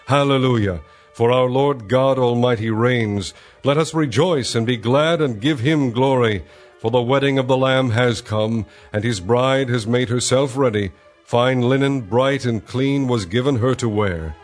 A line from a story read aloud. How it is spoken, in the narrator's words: what sounded like a great multitude, like the roar of rushing waters and like loud peals of thunder shouting